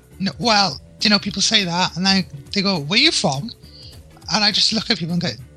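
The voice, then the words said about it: Welsh accent. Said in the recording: “you're in Wales, if anyone couldn't guess ... Can't you tell from my accent?”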